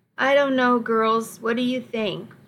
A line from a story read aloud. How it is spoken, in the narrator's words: I asked